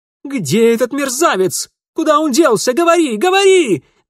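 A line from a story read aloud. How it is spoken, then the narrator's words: Yelling. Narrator (Russian): вопил Алексей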